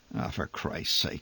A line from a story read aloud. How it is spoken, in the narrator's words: he muttered amid the thrumming uproar